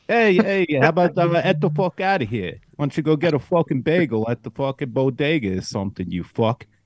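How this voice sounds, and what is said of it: Weak put-on New York accent. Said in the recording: “put on a New York accent ... I want to hear your New York accent ... You need some work ... I think you're in Connecticut. You're possibly moving to Boston ... you're not quite there”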